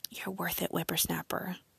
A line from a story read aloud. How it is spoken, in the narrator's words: whispered back